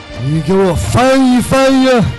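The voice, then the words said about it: Imitating Tang Shiye's voice. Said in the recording (Chinese): “我们只会汤师爷。”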